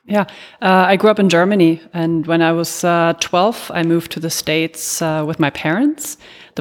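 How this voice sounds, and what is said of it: Faint European accent. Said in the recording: “there is a faint accent in there ... You are not pure Yankee poodle ... You are very European”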